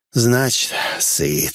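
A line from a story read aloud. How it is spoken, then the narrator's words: Relieved gnome exhaling. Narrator (Russian): облегченно выдохнул гном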